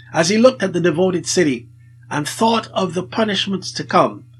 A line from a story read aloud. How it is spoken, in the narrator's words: he exclaimed with weeping